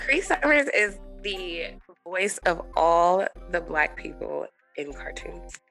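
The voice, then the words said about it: Hoarse, lost voice. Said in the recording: “I lost my voice, so you guys can refer to me as Cree Summers ... You do sound like a Rugrats, though.”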